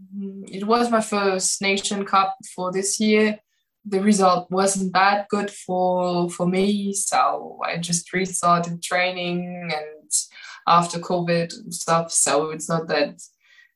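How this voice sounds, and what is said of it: Slight German accent. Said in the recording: “For me as a German ... I have a German accent a little bit”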